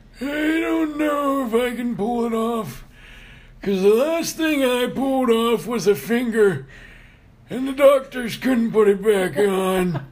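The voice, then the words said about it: Put-on old man voice. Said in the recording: “Your very old man voice.”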